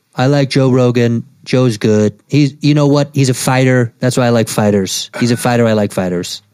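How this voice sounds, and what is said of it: Imitates another person's voice, New York accent. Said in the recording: “you can do Trump ... That's not bad ... It's good, except you got to get the R out of there on the New York accent ... You're close enough”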